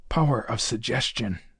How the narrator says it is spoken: whispered

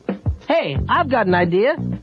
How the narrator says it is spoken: Woody exclaimed

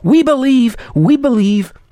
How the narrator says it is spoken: Again they cried

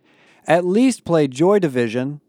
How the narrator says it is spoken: Connor yelled

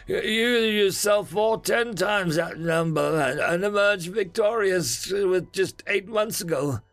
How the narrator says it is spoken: Ilekamaoni said, his voice dripping with condensation

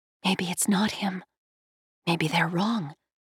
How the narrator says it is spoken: A tiny voice in her head whispered

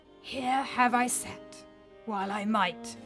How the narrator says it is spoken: rasped Thorir sadly

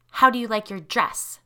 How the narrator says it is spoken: Tanya asked in an icy tone

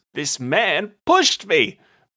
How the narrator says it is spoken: Bront shouted

